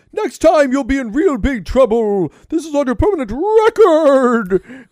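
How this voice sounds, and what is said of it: Odd impression of Benjamin Sisko. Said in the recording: “You took that impression to a really weird place. Like, you normally do a fairly good one... It's the only impression I can do of Benjamin Sisko.”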